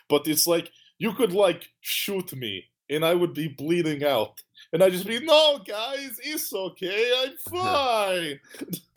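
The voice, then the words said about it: Weird put-on Russian accent. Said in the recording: “I'm just talking in a weird Russian accent ... I like how you're talking in a Russian accent”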